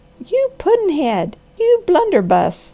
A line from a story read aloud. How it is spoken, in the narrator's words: cried Granny